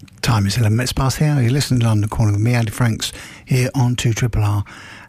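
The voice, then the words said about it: Sussex English accent. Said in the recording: “my accent is from Sussex.”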